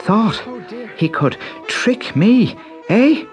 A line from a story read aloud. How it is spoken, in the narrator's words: panted